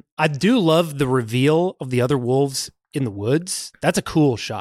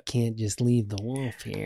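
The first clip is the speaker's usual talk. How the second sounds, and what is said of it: Imitates another person's voice. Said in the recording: “where's your impression? Because that wasn't it. Now I hear it. ... That was my about Schmidt Nicholson.”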